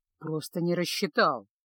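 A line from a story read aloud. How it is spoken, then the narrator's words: Wizard muttering under breath. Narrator (Russian): пробурчал чародей себе под нос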